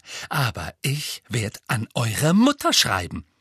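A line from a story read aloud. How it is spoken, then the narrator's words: Voice trembling with anger. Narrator (German): sagte mit zornbebender Stimme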